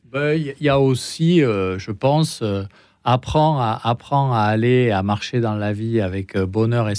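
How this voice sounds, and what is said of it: Slight accent in French. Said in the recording (French): “ce petit accent”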